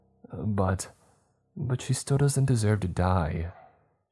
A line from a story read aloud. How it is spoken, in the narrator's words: she added in a quiet tone